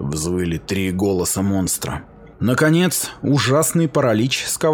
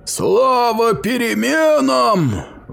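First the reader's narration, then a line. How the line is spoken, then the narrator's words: Monster's roar. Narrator (Russian): взревело чудовище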